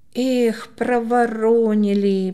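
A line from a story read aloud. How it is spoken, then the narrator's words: Drawn-out disappointed drawl. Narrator (Russian): протянул Коля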